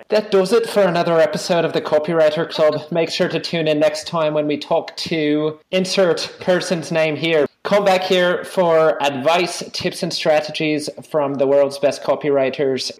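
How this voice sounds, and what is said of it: Put-on accent. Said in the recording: “put on my accent again and pretend I'm not me? ... Can you please do your accent”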